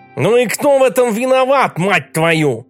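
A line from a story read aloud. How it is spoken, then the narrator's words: Shouted after someone. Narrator (Russian): крикнул Дом вслед ему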